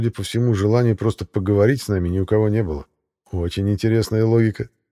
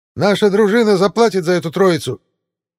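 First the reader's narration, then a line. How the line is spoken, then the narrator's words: Shrill straining shout. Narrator (Russian): надрывался визгливый голос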